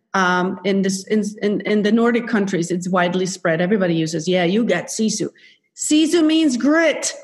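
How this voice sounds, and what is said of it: Swedish accent. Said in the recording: “as a Swede, you probably hear my accent.”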